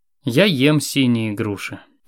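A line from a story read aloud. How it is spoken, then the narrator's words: Sad repetition. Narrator (Russian): печально повторил дальтоник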